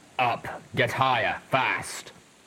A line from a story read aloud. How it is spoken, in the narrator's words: Calamity grunted painfully